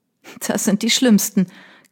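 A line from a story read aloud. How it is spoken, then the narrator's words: Laughing again. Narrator (German): Kate lachte erneut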